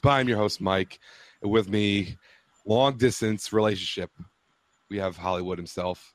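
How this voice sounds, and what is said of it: Sore, rough throaty voice. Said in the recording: “I'm a little under the weather. I have a sore throat, so if I sound kind of weird”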